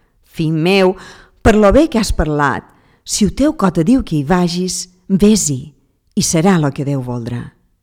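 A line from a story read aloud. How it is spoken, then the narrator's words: Exclaiming. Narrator (Catalan): s'exclamà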